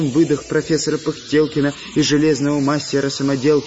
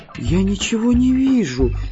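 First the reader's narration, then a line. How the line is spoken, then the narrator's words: Frightened squeaky little voice. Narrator (Russian): испуганно пропищал голосочек Настеньки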